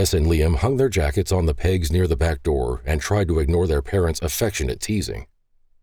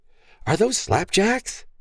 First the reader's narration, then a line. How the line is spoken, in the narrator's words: Liam excitedly questioned